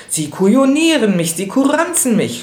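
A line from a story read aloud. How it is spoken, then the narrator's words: Furious shout. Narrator (German): schrie er im Jähzorn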